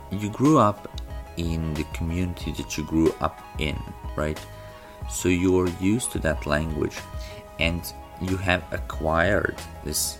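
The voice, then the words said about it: Non-native, non-North American English accent. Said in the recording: “when I speak English, most people can tell that I am a foreigner ... my accent is not a North American accent, or an accent of a person who is a native speaker”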